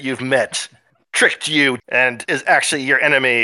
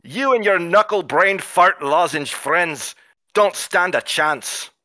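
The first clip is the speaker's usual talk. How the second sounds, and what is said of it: Bad put-on Scottish accent. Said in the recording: “I have to get my bad Scottish accent back.”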